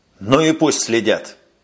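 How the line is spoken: Angry, near losing control. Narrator (Russian): сердито сказал майор, готовый вот-вот потерять самообладание

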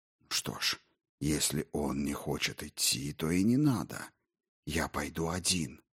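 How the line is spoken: Whispering. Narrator (Russian): зашептал Дрогон

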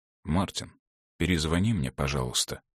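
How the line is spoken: Low voice, voicemail message. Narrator (Russian): он сказал вполголоса на автоответчик

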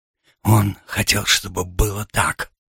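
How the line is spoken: Whispered. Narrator (Russian): прошептал Бенджамин Вильяме

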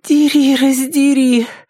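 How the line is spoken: Moan. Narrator (Russian): простонала Триша главным образом для того, чтобы услышать собственный голос

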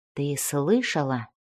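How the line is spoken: Whispering. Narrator (Russian): прошептал он

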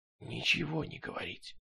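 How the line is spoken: Whisper. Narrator (Russian): прошептал Стремглав

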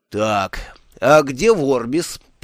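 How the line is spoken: Growl. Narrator (Russian): прорычал он

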